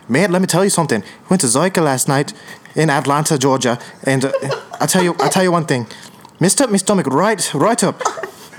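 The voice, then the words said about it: Put-on Irish accent, pretty good. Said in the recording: “in an Irish accent ... Honestly, that was pretty good. I was surprised.”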